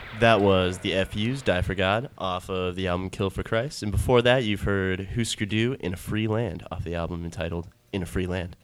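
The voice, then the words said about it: Smooth radio announcer voice. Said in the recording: “you have an amazing radio voice ... The smooth sounds”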